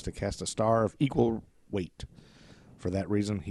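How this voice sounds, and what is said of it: Usual voice. Nothing is said of it.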